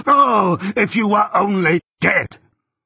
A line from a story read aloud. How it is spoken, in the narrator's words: shout